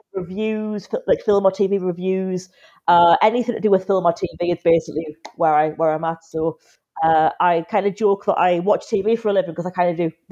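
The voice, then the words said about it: Geordie Newcastle English accent. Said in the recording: “obviously I'm from Newcastle, if you couldn't tell ... the accent hasn't gone yet. Still here ... I feel like I'm a Geordie at heart”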